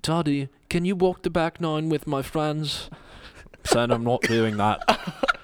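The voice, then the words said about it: Put-on South African accent. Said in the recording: “I got to get my South African accent here.”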